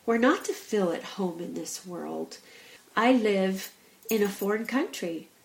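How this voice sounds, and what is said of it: American accent. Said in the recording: “I'm from America ... it is known by my accent that I'm not from England”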